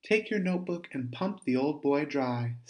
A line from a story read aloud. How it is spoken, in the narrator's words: Stephen added, with a slight laugh